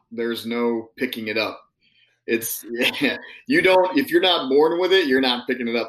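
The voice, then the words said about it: Midwestern American accent. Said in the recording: “You sound like a Midwesterner”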